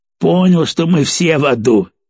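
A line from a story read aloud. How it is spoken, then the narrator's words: Angry snort. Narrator (Russian): зло хмыкнул Перец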